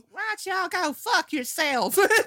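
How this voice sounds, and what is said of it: Thick Southern drawl. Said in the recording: “You could barely understand that drawl is so thick. You can barely understand her ... she's just got this accent that is in fucking sane”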